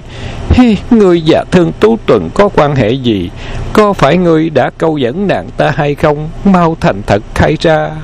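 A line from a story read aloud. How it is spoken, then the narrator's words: Giggling mock scolding. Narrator (Vietnamese): Vân Ngọc Chân cười khúc khích như chuông ngân, giả bộ mắng vài câu rồi mới nói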